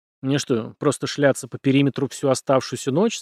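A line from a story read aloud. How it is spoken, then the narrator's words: Plain question. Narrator (Russian): спросил Парки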